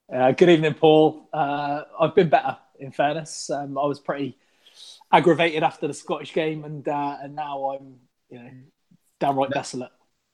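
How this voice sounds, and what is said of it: West Country English accent. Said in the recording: “with a West Country accent”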